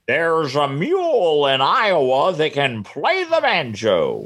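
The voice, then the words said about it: Imitates a TV newsman's voice. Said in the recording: “my Charles Carrault impression”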